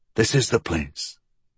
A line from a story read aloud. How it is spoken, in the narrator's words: Pinkerton whispered